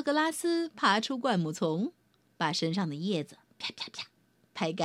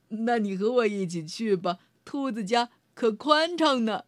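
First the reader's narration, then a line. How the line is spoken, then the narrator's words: Laughing. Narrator (Chinese): 道格拉斯笑了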